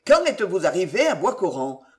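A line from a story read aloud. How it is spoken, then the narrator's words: Curt question, woman. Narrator (French): me demanda-t-elle d'un ton sec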